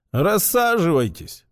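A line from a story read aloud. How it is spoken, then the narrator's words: Tired. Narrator (Russian): устало сказал полковник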